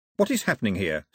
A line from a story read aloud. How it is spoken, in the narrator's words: snapped Mao